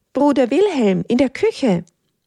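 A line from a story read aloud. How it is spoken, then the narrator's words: Cheeky calling out. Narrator (German): ruft vorlaut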